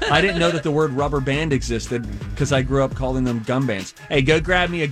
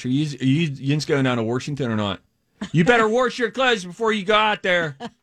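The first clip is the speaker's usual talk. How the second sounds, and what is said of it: Exaggerated Pittsburgh accent. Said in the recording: “A weird accent. ... It's a very bizarre, accent. It's called Pittsburghese, and it is one of a kind.”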